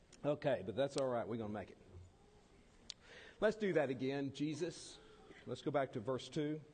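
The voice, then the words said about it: Choked-up, nearly lost voice. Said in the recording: “I got all choked up. ... my voice is almost gone.”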